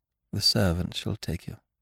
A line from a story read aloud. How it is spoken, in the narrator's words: she murmured